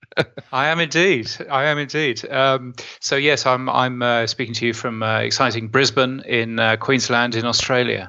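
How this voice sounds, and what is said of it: British accent. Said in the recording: “I have this ridiculous British accent”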